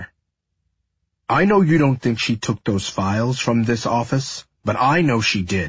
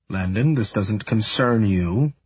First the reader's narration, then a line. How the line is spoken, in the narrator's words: my father says, his voice soft